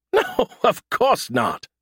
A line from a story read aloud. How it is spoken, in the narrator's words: he scoffed